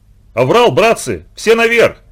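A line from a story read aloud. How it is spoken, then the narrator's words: Panicked shout. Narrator (Russian): В панике закричал Семка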